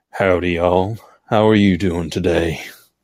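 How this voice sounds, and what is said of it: Put-on country accent. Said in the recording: “Country accent ... was that little country?”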